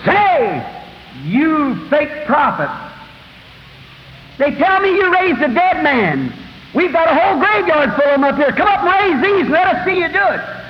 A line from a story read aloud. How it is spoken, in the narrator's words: the head of the Association of Jerusalem, that priest, scream out and said